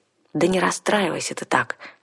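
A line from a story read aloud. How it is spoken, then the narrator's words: Soft, gentle. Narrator (Russian): мягко сказала я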